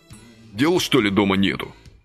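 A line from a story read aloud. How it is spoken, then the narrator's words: Angry question. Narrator (Russian): злобно спросил Василий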